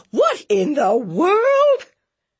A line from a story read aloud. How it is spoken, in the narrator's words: Vesta Adcock looked up horrified, screaming